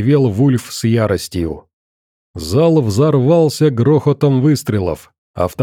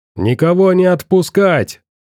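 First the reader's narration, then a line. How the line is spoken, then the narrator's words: Shouted. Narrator (Russian): крикнул кто-то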